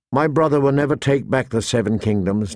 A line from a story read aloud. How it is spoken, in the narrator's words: Danny said